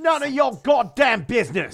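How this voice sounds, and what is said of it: Put-on Cockney accent. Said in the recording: “why do you have a Cockney accent?”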